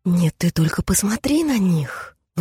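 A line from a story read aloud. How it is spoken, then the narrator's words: Indignant hiss. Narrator (Russian): возмущенно прошипела Алиса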